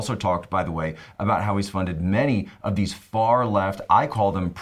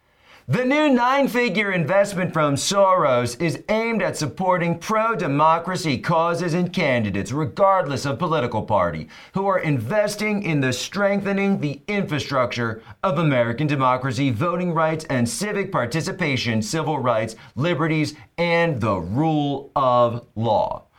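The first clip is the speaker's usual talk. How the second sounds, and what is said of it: Mock announcer voice. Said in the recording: “announcer voice”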